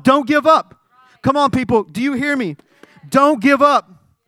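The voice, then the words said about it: Yelling preacher. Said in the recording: “I'm yelling.”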